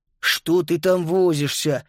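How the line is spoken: Grumbling. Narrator (Russian): проворчал Макс

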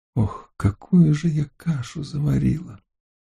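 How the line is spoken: Sighing. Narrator (Russian): вздохнула она

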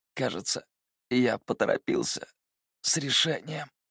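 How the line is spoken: Hoarse rasp. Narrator (Russian): прохрипел Ло Хэян

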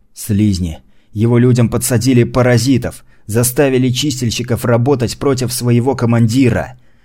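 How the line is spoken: Indignant growl. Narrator (Russian): От возмущения Гурбан зарычал

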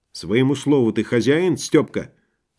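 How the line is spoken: Plain. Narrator (Russian): сказала тогда Сашка

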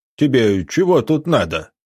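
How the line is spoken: Deep bass voice. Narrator (Russian): пробасил незнакомец

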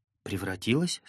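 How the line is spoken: Mother asking, oddly. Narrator (Russian): спросила мама немного странным голосом

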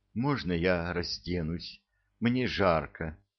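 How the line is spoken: Whisper. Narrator (Russian): шептала

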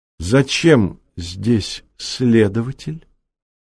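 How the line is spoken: Gentle inquiry. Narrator (Russian): мягко поинтересовался у своих соседей меценат Губкин

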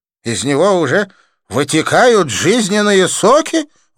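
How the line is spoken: Alarmed exclamation. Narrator (Russian): воскликнул Джасвант, попятившись

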